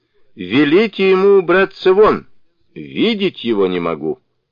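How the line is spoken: Loud angry shout. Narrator (Russian): Царь громко крикнул

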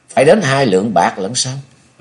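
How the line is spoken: Smiling. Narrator (Vietnamese): Nhậm Sơn Bạch chàng mỉm cười rồi nói

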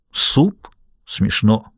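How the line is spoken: Gruff soldier's mutter. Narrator (Russian): буркнул сержант

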